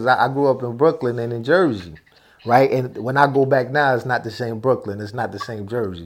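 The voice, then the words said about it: Northern US accent. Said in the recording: “From my accent, of course, they could tell I'm from up north.”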